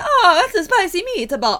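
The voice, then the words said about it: Put-on Italian accent. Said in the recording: “doing an Italian accent”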